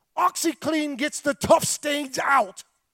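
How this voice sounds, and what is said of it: Attempted British accent, sounds Scottish. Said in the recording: “I'm not going to try to do a British... I sound more Scottish than British... Can't do a British accent.”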